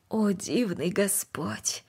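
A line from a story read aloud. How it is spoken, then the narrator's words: Quiet. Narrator (Russian): тихо произнесла она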